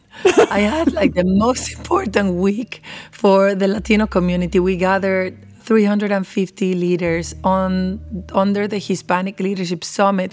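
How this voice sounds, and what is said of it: Hoarse, nearly lost voice. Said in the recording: “where's your voice? ... my voice is gone”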